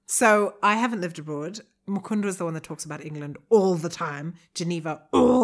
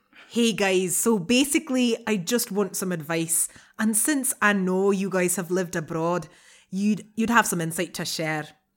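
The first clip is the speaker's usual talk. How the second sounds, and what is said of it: Put-on Irish accent, sounds Scottish. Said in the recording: “Are you going to read in an accent? ... Definitely. ... That's a brilliant Scottish, by the way. ... That's your best accent after your normal one. ... I was going for Irish, but thanks.”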